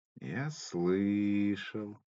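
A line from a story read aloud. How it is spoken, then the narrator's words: Young man, dry reply. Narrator (Russian): сухо отозвался парень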